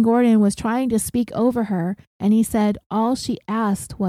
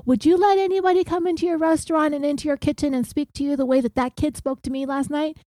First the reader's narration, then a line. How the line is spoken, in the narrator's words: she yells